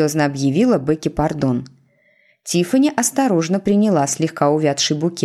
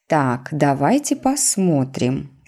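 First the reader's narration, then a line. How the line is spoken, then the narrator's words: Plain. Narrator (Russian): сказала она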